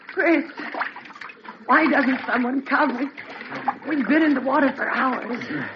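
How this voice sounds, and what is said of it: Breathless, out-of-breath voice. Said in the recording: “I'm all out of breath.”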